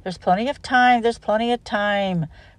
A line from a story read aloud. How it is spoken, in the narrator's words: grumbled the coaches